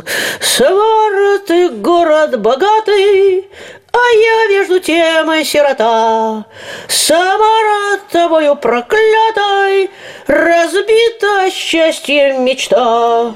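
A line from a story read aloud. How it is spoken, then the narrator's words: Cheerful singing. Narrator (Russian): запела веселым голосом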